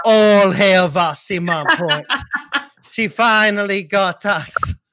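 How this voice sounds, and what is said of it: Haitian accent. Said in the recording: “a really good Haitian accent”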